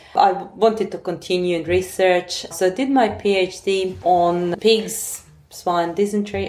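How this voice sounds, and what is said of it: European accent. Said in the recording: “as you can say by my accent, I'm import from overseas ... my country back in Europe”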